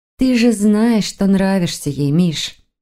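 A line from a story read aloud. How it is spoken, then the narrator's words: Soft, gentle. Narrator (Russian): мягко сказала Воронцова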